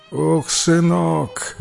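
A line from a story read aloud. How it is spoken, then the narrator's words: Old woman's sigh. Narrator (Russian): вздохнула старушка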